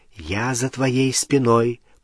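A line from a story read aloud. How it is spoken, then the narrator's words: Whisper in the ear. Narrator (Russian): прошептал он в ухо Гермионы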